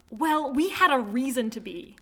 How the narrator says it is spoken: the girl snaps

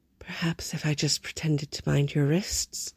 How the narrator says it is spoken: Harold murmured helplessly

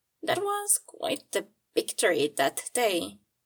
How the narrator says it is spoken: Gregor said, chuckling

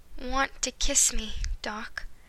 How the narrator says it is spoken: Marty sighed

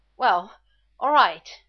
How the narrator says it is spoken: Shepard gasped

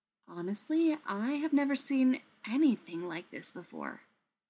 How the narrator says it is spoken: Taylor said quietly

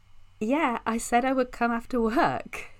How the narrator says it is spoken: the girl says with a laugh

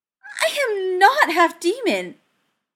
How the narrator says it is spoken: Cordelia squeaked

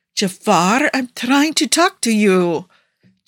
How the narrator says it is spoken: Chesedek whined

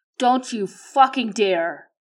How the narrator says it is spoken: He roars to his men

